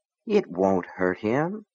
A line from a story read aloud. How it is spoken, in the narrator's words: Gaunt said softly